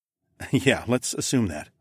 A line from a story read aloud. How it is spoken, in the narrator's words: I chuckled